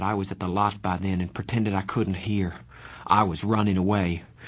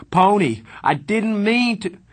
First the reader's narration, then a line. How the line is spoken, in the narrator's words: Darry screamed